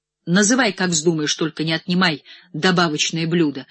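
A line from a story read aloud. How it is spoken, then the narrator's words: Sharp tone. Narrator (Russian): резко предложил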